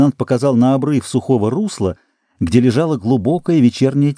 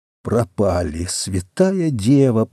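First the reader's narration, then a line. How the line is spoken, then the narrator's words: Whispered. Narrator (Russian): прошептал калабрийский матрос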